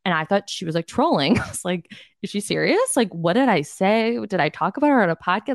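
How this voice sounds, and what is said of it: Valley Girl voice. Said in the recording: “Valley Girl voice really, she said something about my Valley Girl voice”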